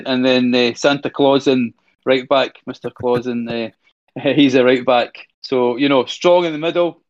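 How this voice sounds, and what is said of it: Scottish accent. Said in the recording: “Excuse my Scottish accent.”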